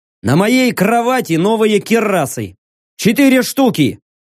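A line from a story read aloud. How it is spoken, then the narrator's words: Shouting. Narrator (Russian): крикнул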